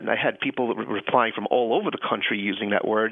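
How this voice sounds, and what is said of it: Slight Long Island New York accent. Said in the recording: “Grew up in Long Island, New York. ... can hear the accent. ... A little bit, yeah.”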